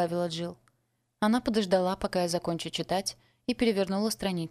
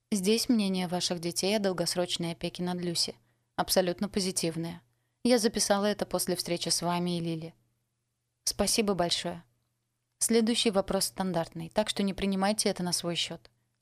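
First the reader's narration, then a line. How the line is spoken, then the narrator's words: Plain. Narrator (Russian): сказала Джилл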